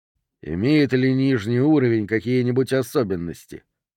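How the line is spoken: Calm question. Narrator (Russian): спокойно спросил Д'Агоста

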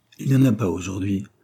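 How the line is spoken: Plain. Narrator (French): répondit Madame d'air

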